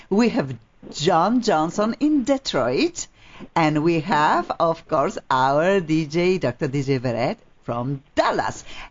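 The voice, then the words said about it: Slight Polish accent. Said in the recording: “I have a little bit an accent. I'm originally from Poland.”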